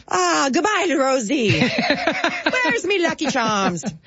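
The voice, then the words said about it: Put-on Irish accent, pirate-like. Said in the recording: “I don't do an Irish accent ... no, I don't either. Usually turns into some sort of pirate.”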